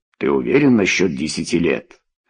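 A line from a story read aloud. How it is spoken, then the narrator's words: Plain. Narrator (Russian): спросил Тумба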